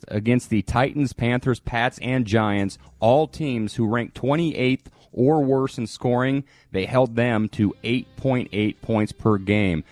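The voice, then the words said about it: Flat robotic monotone delivery. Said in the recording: “Why are you talking like a robot all of a sudden?”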